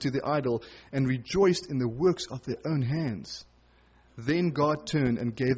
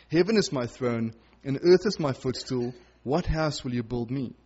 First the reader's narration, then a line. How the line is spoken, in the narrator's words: says the Lord